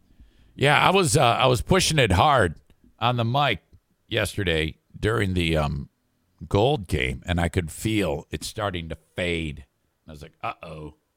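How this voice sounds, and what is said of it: Strained, fading hoarse voice. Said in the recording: “I think I'm losing my voice again”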